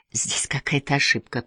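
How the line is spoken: Mumble. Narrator (Russian): промямлил Анвин

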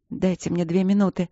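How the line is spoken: Hoarse plea. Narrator (Russian): хрипло попросила она

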